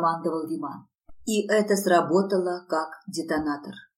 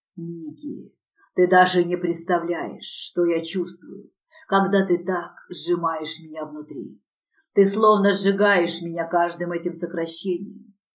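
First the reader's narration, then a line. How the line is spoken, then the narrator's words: Hoarse rasp. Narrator (Russian): прохрипел он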